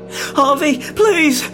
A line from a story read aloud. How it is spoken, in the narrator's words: Rob yelped